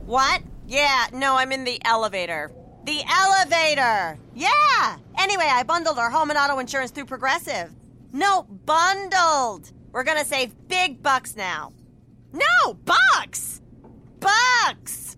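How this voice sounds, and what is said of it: Loud phone talk in elevator. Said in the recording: “my impression of a person having a phone conversation in the elevator”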